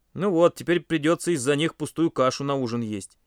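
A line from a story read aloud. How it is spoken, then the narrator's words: Displeased grumbling. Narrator (Russian): недовольно проворчал он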